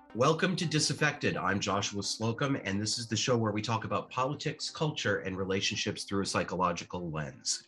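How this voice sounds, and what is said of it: Voice affected by a cold. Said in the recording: “sorry for my voice today. I have a man cold”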